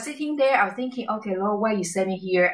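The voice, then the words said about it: Non-native English accent. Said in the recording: “You have a different accent.”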